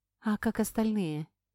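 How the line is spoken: Quiet question. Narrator (Russian): негромко спросила

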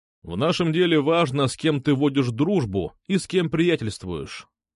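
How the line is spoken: Plain. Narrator (Russian): ответил он

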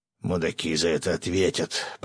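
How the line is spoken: Growl. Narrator (Russian): прорычал рыбак

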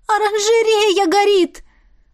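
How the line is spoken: Desperate shout. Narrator (Russian): отчаянно выкрикнула Эва

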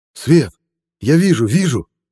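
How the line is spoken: Excited shout. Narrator (Russian): закричал Саша

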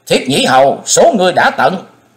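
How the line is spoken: Furious booming roar. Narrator (Vietnamese): Thái Hùng cắn chặt đôi môi đến bật máu, gầm vang dội

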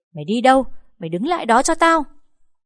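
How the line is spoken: Mother screaming from behind. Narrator (Vietnamese): Mẹ tôi ở phía sau gào lên

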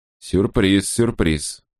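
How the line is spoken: Plain. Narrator (Russian): сказал он

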